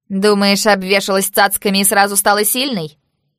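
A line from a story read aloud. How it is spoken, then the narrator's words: Loud laughter. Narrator (Russian): Она расхохоталась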